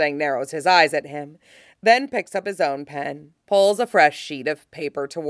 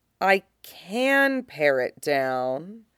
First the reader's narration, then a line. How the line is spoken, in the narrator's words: he says slowly